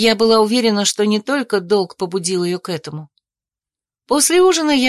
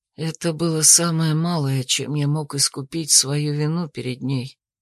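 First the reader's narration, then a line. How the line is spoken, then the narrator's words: Whispered reply. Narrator (Russian): прошептал он в ответ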